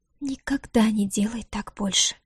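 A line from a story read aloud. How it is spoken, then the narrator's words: Barely audible, deflated mutter. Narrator (Russian): Еле слышно пробормотала она, словно разом растеряв всю свою дерзость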